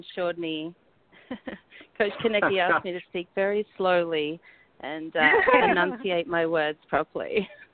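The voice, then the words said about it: Australian accent. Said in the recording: “We got an Aussie. The Aussie accent.”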